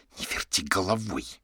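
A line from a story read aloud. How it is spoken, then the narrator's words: Hiss. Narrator (Russian): прошипела Катя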